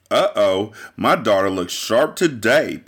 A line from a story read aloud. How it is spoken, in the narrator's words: Patty said